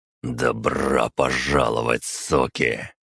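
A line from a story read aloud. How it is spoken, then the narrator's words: Hoarse rasp. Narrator (Russian): прохрипел я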